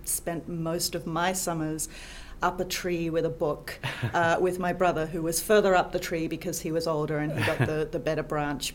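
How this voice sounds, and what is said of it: Slightly faded Australian accent. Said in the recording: “accent is maybe from down under ... My accent is a little distorted these days, but I am from Australia”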